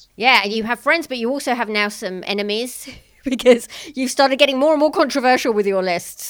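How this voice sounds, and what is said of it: British accent. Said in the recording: “your British accent ... the way you say the word controversy ... It's endearingly British.”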